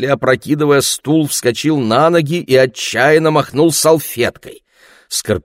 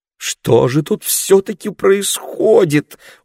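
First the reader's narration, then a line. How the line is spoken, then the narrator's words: Pleading question. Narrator (Russian): умоляющим голосом спрашивала мама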